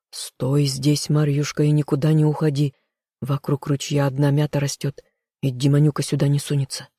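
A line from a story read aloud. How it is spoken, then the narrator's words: Young man whispering. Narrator (Russian): юноша шептал невесте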